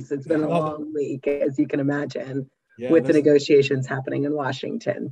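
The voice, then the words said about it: Strained, worn-out voice. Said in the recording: “excuse my voice.”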